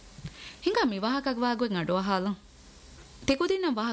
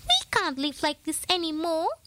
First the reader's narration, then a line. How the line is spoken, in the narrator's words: squeaked the eldest mouse, his whiskers quivering